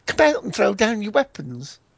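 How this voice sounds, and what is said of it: American accent. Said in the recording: “That was a funny accent, wasn't it? ... Didn't sound very military, did he? ... He's trying to do an American accent, is he? ... he is doing one. He's actually an American.”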